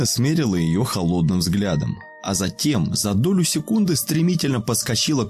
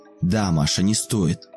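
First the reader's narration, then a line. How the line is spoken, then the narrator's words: Menacing, through clenched teeth. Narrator (Russian): грозно процедила Алина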